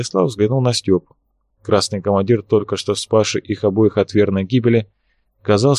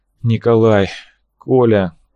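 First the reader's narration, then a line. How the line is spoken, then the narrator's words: Choked exhaled words. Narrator (Russian): Косухин сглотнул горькую слюну и выдохнул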